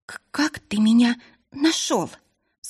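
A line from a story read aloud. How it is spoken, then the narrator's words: Mumbled through sobs. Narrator (Russian): сквозь рыдания пробормотала Марилисса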